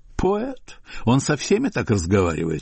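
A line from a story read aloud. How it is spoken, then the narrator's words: High naive voice. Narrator (Russian): отвечала Майя высоким и наивным голосом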